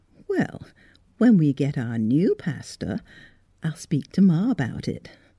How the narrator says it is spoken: purred Miss Electa

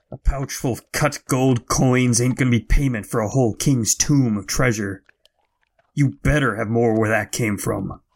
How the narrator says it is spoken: He hissed through his teeth

